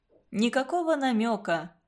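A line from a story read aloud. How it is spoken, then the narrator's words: Calm. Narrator (Russian): спокойно ответил Константин Семенович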